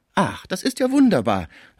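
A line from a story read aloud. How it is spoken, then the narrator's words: Called out. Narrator (German): rief Schmucke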